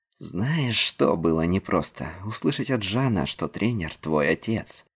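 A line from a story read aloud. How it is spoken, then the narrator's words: Hissed. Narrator (Russian): Прошипел Нил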